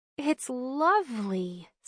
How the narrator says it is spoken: sighed Bryn

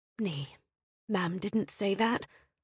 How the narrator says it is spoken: Hart murmured out loud

